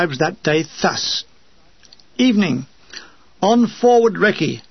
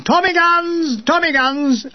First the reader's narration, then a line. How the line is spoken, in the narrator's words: the Major shouting